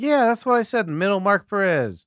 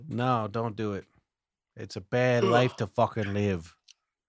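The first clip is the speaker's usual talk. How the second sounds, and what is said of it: Tony Soprano character impression. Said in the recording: “my Tony Soprano impression”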